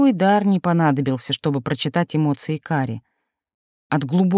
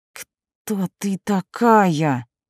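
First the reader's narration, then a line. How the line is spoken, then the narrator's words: Through clenched teeth. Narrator (Russian): процедила Кари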